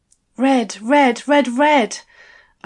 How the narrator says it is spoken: I gasped

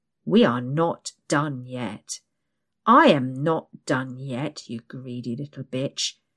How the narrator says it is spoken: he snarls

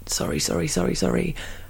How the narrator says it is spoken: mumbling

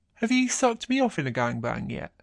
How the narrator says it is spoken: grinning as he says

